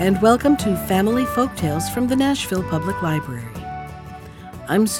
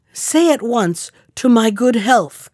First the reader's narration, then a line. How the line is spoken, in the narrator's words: cried the king